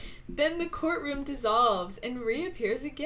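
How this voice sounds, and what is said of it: Usual voice. Nothing is said of it.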